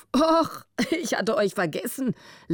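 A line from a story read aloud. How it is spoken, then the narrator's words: Amused laugh. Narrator (German): lachte er, halb grinsend vor Vergnügen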